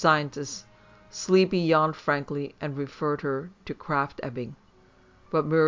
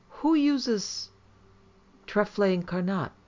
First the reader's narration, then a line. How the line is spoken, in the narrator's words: Monkhouse, sniffing, exclaimed